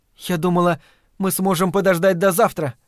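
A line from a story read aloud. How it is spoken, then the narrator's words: Timid. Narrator (Russian): робко начала она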